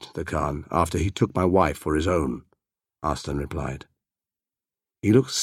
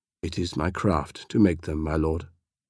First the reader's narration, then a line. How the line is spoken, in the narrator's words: Arslan said softly